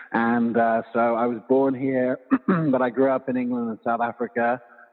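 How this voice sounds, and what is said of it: Non-American, British-sounding accent. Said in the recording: “you have a really cool accent. You're not from the U.S. originally, it sounds like ... British”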